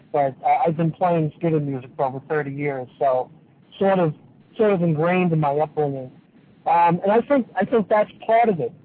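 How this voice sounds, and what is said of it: New York accent. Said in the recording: “excuse my New York accent, but I am from New York”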